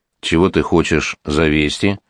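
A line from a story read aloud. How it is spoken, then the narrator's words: Dry question. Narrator (Russian): сухо спросил Иван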